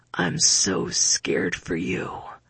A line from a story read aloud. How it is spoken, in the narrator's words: into my ear